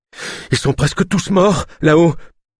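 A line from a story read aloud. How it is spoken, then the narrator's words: Panting. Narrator (French): haleta-t-il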